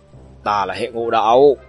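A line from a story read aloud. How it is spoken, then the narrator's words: Angry roar. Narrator (Vietnamese): Gã thanh niên ốm nhom kia tức giận gầm lên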